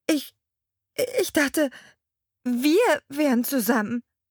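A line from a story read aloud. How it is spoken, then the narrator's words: Stammering. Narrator (German): stammelte ich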